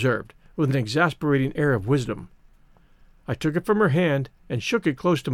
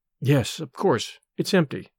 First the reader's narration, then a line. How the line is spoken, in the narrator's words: I muttered disdainfully